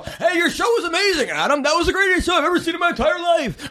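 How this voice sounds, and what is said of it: Imitates another person's voice. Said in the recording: “talks exactly like he does ... that's a terrible impression, but that's exactly how he is”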